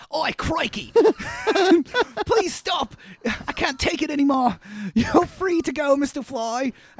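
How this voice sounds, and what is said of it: Bad put-on Australian accent. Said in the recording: “That was a really bad Australian.”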